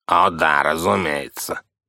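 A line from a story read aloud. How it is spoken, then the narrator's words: Grumbled. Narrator (Russian): проворчал сэр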